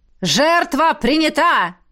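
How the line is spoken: Shout. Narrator (Russian): крикнул

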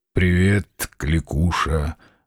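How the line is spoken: Curt, through clenched teeth. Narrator (Russian): бросил он сквозь зубы

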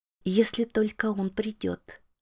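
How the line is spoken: Ominous inner whisper. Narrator (Russian): зловеще шепнул голосок внутри

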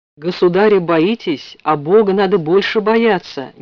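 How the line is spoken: Metropolitan's sudden loud voice. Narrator (Russian): неожиданно громко сказал митрополит

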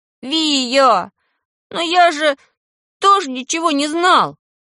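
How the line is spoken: Desperate wail. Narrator (Russian): уже с отчаянием взвыл меньшой

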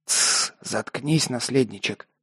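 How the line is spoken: Unfriendly hiss. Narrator (Russian): неласково прошипел кошак

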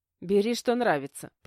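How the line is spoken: Permissive sigh. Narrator (Russian): позволила я и вздохнула

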